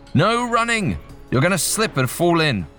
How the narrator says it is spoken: yell

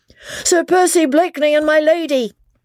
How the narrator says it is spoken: he shouted at the top of his voice

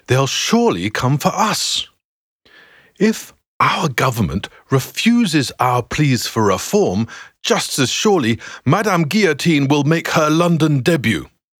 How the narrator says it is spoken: continues James, his voice now rising

